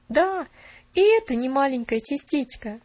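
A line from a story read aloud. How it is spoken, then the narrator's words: Exclaiming. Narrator (Russian): воскликнул он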